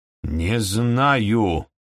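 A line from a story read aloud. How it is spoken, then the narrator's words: Angry snap. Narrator (Russian): сердито огрызнулся хозяин дома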